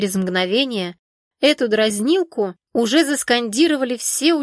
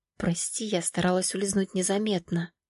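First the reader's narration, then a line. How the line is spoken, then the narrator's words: Quiet speech. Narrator (Russian): Валерия негромко проговорила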